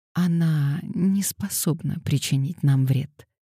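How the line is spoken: Quiet speech. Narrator (Russian): тихо сказала Пандора

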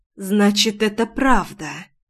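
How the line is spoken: Muffled reply. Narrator (Russian): Глухо отозвалась

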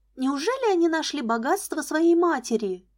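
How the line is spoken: Exclaimed. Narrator (Russian): воскликнула Лиза

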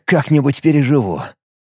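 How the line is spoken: Wry snort. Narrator (Russian): хмыкнул Алекс

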